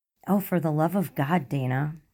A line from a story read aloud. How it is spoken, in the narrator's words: Melissa groans, still smiling